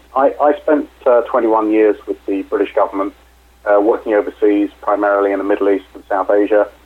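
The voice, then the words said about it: British accent. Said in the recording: “as you can probably tell from my accent, I'm originally British”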